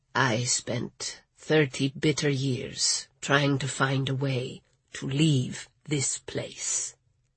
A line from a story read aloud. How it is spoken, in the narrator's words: Ernesto said so quietly